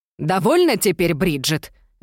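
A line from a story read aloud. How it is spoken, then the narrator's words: Angry shout. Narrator (Russian): гневно крикнула мама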